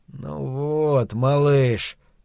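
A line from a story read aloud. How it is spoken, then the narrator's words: Quiet. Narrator (Russian): тихо сказал Невиль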